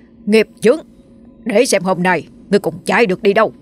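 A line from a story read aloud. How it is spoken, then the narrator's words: Monk barking sharply. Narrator (Vietnamese): sư thầy quát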